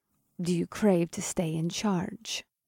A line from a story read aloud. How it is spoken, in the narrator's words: Morgana purred